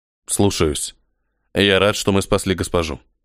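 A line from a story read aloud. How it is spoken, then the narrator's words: Plain. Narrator (Russian): ответил первый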